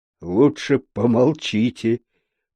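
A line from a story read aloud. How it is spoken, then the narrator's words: Muttered. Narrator (Russian): пробормотал полицейский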